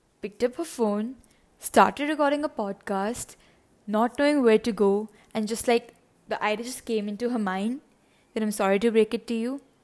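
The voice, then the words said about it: Indian English accent. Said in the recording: “my weird accent ... I am from India”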